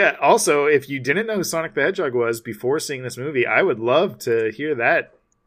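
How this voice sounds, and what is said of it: Usual voice. Nothing is said of it.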